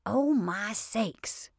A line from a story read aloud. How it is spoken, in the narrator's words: exclaimed Peggy